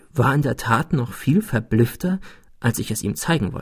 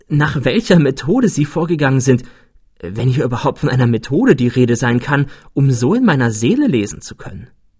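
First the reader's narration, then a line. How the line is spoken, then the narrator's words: Exclaimed. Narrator (German): rief ich aus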